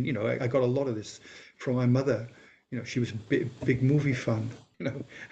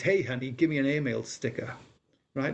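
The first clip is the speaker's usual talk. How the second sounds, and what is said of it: Put-on American accent. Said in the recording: “she had an American accent”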